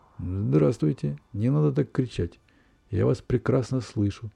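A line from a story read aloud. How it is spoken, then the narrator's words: Slow drawl. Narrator (Russian): Растягивая слова, медленно ответили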